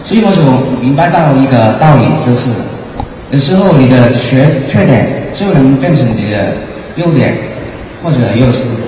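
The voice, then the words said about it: Macau-accented Mandarin. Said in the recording (Chinese): “你普通话说的很烂，这一听就知道是澳门人的口音”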